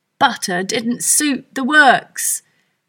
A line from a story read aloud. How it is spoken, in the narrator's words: said crossly